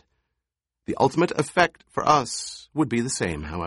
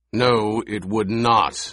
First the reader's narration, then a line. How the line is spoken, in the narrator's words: the Baron growled